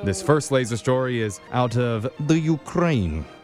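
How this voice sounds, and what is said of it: Put-on Ukrainian, Dracula-like accent. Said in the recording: “Is that a Ukrainian accent, sir? ... Okay, Count Dracula.”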